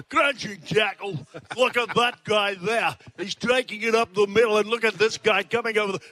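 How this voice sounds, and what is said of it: Ray Warren impression. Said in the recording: “best impersonation ... the great rabbi, Ray Warren”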